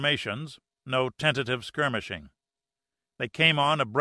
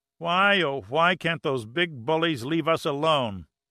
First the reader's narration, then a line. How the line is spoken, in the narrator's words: Giordino moaned